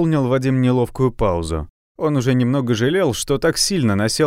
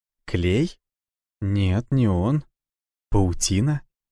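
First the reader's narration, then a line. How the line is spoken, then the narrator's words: Surprised whisper. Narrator (Russian): Удивленно прошептала она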